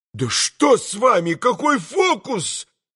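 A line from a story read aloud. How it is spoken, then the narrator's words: Frightened shouting. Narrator (Russian): прокричал тот уже совсем в испуге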